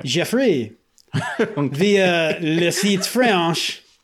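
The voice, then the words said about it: Put-on French accent. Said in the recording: “Shouldn't you be reading this in a French accent? ... I don't even want to try to say Fantatrax in a French accent.”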